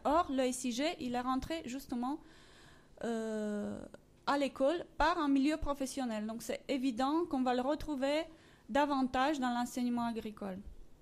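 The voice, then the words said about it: Romanian accent in French. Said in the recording (French): “Mon accent vient de mes origines roumaines”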